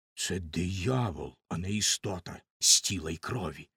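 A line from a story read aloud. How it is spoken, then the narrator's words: Villagers whispering together. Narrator (Ukrainian): шепотіли один одному селяни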